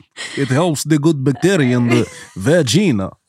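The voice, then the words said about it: Put-on Eastern European accent. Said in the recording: “Say with an Eastern European accent.”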